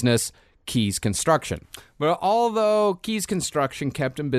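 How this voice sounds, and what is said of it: Usual voice. Nothing is said of it.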